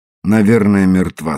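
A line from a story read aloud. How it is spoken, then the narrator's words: Calm reply. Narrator (Russian): спокойно ответил Иде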